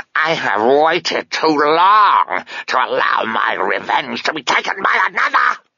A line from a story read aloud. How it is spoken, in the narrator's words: it hissed, ending on a high-pitched yowl that still had something of the cat